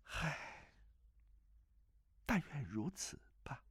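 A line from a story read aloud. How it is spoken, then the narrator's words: Sighing. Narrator (Chinese): 那女子又叹了口气道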